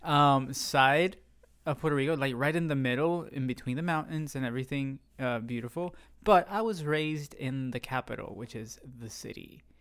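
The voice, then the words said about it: Puerto Rican accent. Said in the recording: “There's my accent.”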